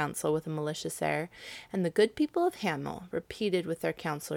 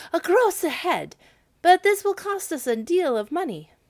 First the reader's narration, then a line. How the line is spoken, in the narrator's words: When the people of Hamel heard of the bargain, they too exclaimed